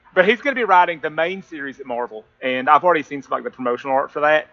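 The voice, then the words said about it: Appalachian accent. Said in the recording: “I've got an Appalachian accent.”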